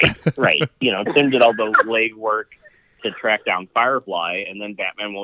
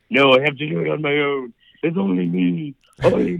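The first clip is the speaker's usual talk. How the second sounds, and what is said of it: Impression of Batman's voice. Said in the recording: “That was a great impression”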